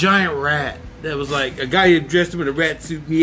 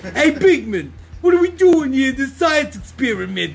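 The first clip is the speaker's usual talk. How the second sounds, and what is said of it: Character voice with Brooklyn accent. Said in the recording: “he had a Brooklyn accent.”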